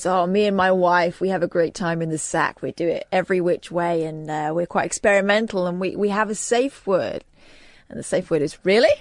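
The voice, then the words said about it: Wavering put-on American accent. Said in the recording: “didn't quite commit to the American accent, so it went back and it went forth there, and it was sometimes it was you”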